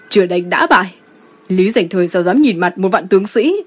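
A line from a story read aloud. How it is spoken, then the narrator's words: Shouting. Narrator (Vietnamese): Lý tướng quân hét lên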